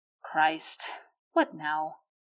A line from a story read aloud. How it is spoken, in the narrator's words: Ed mutters